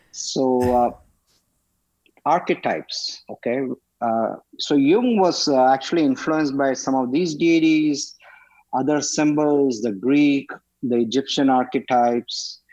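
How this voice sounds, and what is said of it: Speaker's own noticeable accent. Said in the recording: “everyone will be used to my accent ... When you're brown, fat, and you have an accent”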